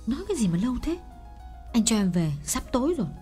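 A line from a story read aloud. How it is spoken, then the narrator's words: Irritable snap. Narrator (Vietnamese): Nàng gắt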